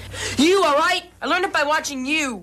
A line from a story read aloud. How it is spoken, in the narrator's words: the son finally is just so fed up and he shouts